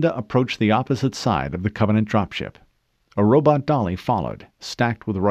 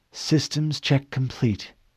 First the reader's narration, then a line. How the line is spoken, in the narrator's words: the copied Cortana whispered